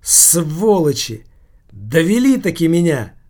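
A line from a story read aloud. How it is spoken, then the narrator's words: Sudden loud exclamation. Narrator (Russian): вдруг воскликнул он громко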